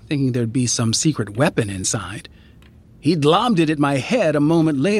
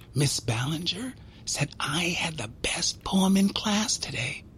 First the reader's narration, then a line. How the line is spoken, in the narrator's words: whisper, like it was a secret